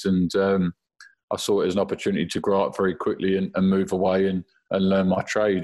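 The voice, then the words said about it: London accent. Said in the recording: “didn't lose my accent ... I've always said I'm from London”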